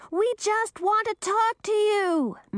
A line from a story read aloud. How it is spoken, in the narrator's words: Millie screamed, but her voice sounded faint, even to her own ears